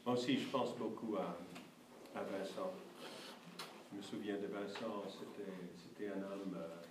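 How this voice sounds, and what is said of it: Slight foreign accent in French. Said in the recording (French): “notre petit accent et nos fautes de français”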